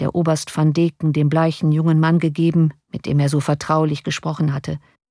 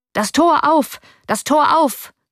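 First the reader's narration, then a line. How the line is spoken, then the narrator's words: Calling voice. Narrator (German): rief eine Stimme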